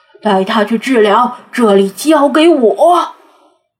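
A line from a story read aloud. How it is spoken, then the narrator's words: Roaring. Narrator (Chinese): 瓦推大吼一声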